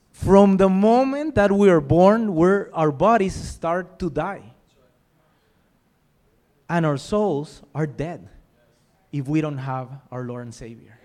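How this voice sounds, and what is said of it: Speaks English with a noticeable accent. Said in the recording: “If my accent threw you off a bit, that happens. ... If I butcher the English language too much tonight”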